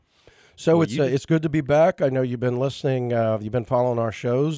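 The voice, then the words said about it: Hoarse, froggy voice. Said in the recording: “Froggy Fridays ... my voice is feeling a little bit. That's probably, you know, one of my bad habits is smoking cigars occasionally”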